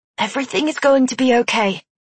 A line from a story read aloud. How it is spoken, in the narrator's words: he whispered